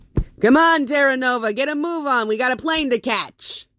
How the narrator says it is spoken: Sonny banged on his bedroom door yelling

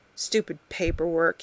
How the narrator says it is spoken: he muttered to himself

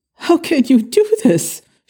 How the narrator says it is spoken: exclaimed, her voice drenched in anguish

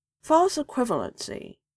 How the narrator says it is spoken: mumbled around her spoonful of Nutella

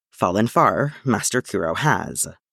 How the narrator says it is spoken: Yoda murmured

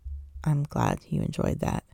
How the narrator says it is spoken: he says quietly, sounding less smug than he looks

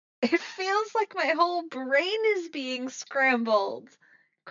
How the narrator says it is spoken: Chrissy shouts, and her voice is barely heard over the blaring sound

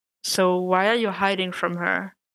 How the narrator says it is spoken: Matt sighed

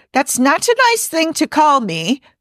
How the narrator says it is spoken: Pelia yells after her

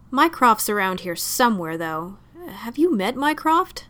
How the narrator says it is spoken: Lestrade chuckled

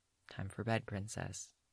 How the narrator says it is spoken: Yen murmurs

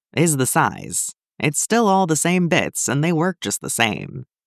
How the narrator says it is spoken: Clint said with a fond chuckle in his voice

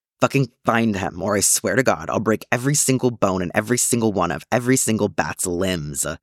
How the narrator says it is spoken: Bucky snarls down the phone at Oracle

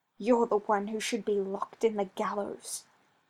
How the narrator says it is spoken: Anders hissed

